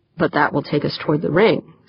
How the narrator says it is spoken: said Wanamaker

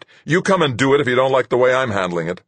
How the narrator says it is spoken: I snapped

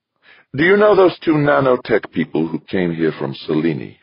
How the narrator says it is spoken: she asked, her tone suddenly sharp, brittle

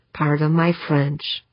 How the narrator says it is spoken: mumbled

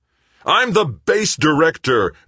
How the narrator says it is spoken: Greg bellowed

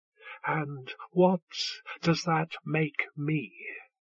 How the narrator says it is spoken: Dejail whispered

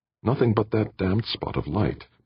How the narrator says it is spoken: Brandon muttered

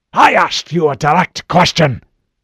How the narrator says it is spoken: Admiral Hood barked

